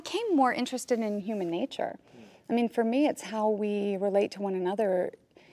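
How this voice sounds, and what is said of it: Usual voice. Nothing is said of it.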